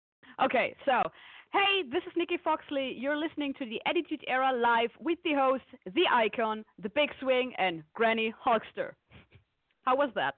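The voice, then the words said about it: German accent. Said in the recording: “you have the sexiest accent I've ever heard ... This is because I'm actually from Germany.”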